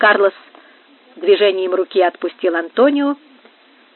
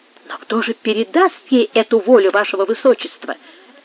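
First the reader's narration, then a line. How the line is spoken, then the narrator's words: Joyful question. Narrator (Russian): спросил радостным тоном Антонио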